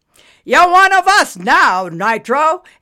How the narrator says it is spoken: Anvil shouted through the crowd chatter

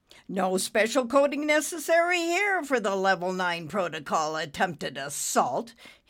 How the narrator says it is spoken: he said indignantly

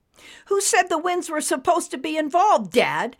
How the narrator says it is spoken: Nimbus yelled through the strong gust of wind

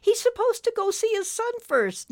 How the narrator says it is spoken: Nimbus pleaded

